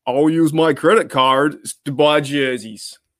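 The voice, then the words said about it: Put-on American accent. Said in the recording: “That's the sort of American accent you get on Touch. Down under.”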